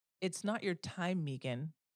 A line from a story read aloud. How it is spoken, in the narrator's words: she said